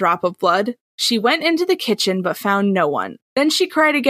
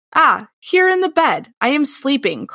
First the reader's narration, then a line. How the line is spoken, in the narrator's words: cried the third drop of blood